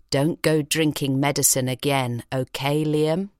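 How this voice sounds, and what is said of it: Stern, firm scolding tone. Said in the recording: “in my sternest voice”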